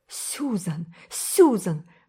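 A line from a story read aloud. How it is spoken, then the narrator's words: Pleading exclamation. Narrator (Russian): воскликнула Энн умоляюще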